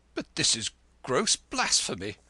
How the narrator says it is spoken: cried the Church of England

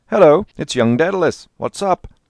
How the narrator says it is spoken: he called out

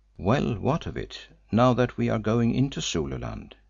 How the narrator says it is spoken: I inquired sharply

